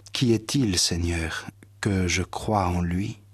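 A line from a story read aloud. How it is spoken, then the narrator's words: Plain. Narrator (French): Jésus lui dit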